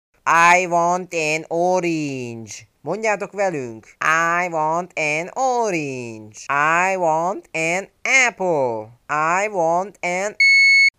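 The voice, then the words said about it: Mock heavily accented English. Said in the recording (Hungarian): “minőségi akcentussal beszélnek angolul”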